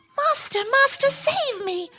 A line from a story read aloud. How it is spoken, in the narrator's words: the harp cried out